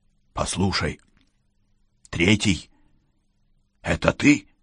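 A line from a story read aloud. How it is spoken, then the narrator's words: Whisper. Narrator (Russian): прошептал охотник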